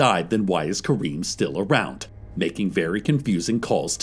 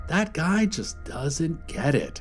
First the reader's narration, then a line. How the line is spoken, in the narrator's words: he said, shaking his head sadly